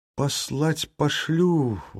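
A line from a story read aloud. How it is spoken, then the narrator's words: Glum. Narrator (Russian): уныло сказал Василий Федорович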